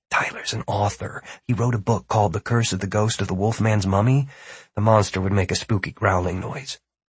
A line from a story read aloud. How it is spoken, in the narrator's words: Martin said in a low voice